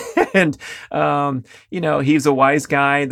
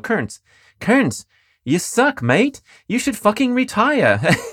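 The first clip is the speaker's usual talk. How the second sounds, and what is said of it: Imitated Australian accent. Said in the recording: “That was his Australian accent.”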